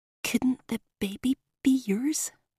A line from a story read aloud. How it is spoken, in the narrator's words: I whispered